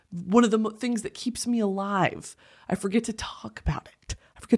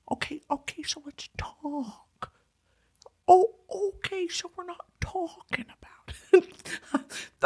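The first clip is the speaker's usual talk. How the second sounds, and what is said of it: Owen Wilson impression. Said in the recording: “Owen Wilson impression ... that was a pretty good impression”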